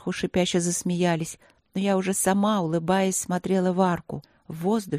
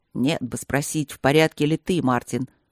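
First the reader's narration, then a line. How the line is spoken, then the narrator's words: Muttering. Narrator (Russian): бормотал друг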